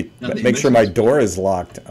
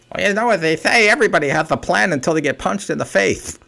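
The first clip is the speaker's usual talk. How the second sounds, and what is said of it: Poor Mike Tyson impression. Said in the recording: “That was a terrible Mike Tyson impersonation.”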